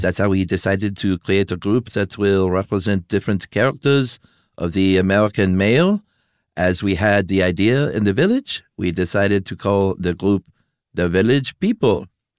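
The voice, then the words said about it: Mock French accent, Pepe Le Pew. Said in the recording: “read it with a French accent ... That was a great Pepe Le Pew.”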